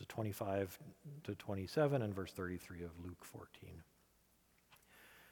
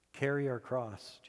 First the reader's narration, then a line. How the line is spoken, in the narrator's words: Jesus said